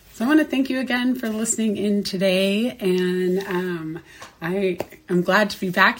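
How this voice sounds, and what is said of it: Voice not fully recovered. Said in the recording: “You can probably hear that my voice is still not 100%”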